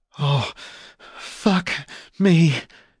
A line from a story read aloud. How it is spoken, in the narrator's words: she breathed